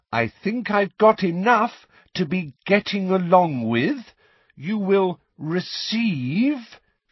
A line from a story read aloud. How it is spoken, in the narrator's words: speaking once more in that loud, slow voice